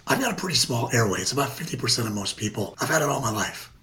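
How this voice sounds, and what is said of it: Raspy voice with loud breathing. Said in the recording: “everyone can hear my raspy voice and my loud breathing”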